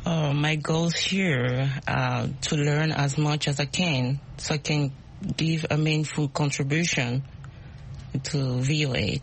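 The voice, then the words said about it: Speaks English with an accent. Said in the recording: “My accent. ... We love accents. We all have accents.”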